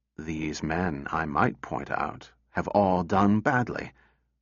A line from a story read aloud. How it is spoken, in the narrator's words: Susan said quietly